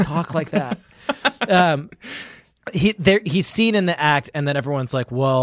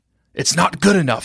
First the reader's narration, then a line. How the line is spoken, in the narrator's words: he said hoarsely